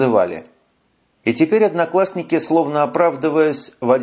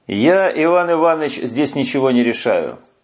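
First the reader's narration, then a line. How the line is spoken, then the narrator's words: Plain. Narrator (Russian): сказал генерал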